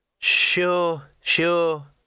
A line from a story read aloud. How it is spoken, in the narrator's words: said the weasel soothingly